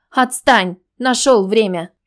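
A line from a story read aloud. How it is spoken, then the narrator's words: Displeased man's growl. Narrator (Russian): Мужчина недовольно рыкнул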